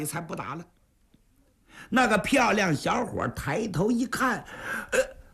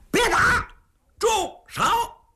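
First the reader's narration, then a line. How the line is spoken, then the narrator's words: Loud shout. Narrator (Chinese): 秦琼…高喊一声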